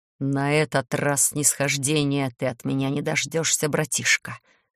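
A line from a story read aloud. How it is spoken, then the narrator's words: Demon's hiss through teeth. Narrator (Russian): процедил демон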